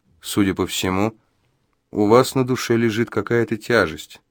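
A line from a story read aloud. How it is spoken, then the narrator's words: Soft, insinuating. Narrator (Russian): вкрадчиво и негромко сказал Джо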